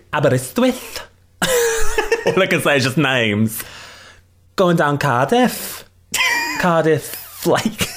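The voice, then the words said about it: Bad put-on Welsh accent. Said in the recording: “her Welsh accent, which is terrible... It's just objectively terrible... You sound like Kay Tom Jones. And it is unusual.”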